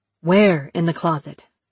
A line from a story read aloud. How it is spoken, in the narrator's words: Lee asked